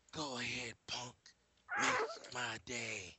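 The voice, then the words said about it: Gruff tough-guy movie impression. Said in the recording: “do a Clint Eastwood impersonation”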